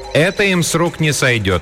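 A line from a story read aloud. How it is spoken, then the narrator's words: Calm, cheerful, hopeful. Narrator (Russian): объявила она спокойным и даже бодрым голосом, несущим надежду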